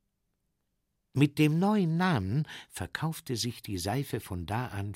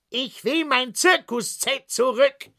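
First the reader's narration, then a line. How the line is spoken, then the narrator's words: Shout. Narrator (German): rief der Zirkusdirektor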